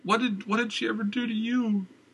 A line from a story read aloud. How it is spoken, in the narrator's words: The cries came from the other end of the hall